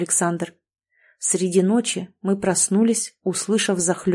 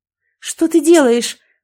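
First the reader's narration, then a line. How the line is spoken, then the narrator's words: Terrified scream. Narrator (Russian): закричала я, напугана до смерти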